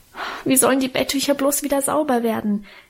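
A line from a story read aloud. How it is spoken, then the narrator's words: Wailing complaint. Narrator (German): jammerte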